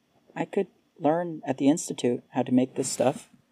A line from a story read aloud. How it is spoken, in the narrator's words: Verona said, her voice quiet in contrast to his being loud